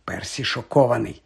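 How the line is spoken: Quiet whisper. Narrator (Ukrainian): тихенько шепнув Гаррі Джордж

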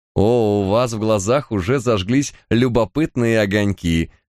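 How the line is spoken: Woman laughing. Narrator (Russian): рассмеялась леди Онор

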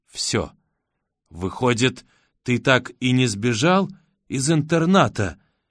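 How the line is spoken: Slow. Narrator (Russian): медленно произносит она

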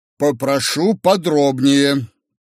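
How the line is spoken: Stern. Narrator (Russian): сказал строго Белосельский

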